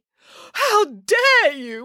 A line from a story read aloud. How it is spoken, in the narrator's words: wailed the woman